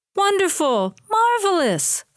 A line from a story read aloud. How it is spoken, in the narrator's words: Florence exclaimed